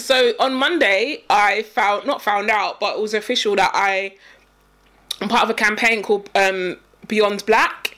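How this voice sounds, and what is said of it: Voice going, strained and hoarse. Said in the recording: “I think I'm losing my voice.”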